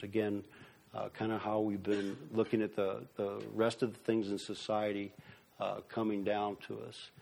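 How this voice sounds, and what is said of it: Speaking very fast. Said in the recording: “I'm talking so fast”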